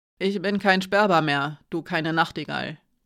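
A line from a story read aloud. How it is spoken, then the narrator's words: Rough voice. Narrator (German): sagte rau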